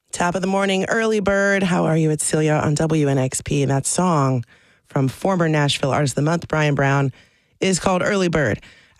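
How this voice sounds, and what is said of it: Hoarse, creaky voice. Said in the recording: “especially feeling creaky today. That's me. I feel like I'm losing my voice”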